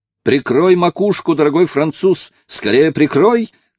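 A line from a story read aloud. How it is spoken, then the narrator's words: Shouted. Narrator (Russian): крикнул возница, иными словами, мистер Ричард Джонс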